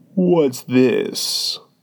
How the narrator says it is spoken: he said, speaking in a deep, hollow tone that sounded like the tolling of a great bell

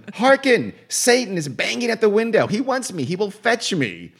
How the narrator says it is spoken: Margaret Yagley, dropped to her knees, and screamed

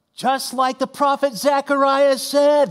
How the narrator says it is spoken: yelled Uncle Joe over the cheers of the crowd

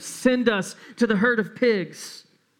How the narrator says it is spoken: the demons begged

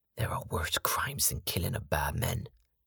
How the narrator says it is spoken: Ivor pronounced in what was supposed to be a whisper but resembled a hiss

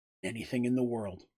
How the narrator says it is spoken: young woman whispered

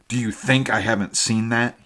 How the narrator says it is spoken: he snarled

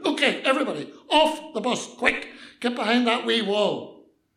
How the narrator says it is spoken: The policeman ... shouted

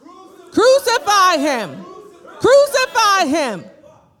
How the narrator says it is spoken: they shouted

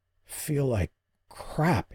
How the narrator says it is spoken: he rasped

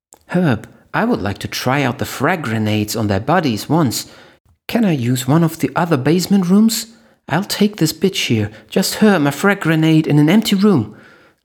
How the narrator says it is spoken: Linny pleaded

